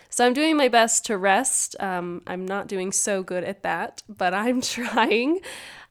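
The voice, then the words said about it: Slightly congested, sniffly voice. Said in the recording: “I've got the sniffles this week, so if you can't tell, my voice sounds a little bit different”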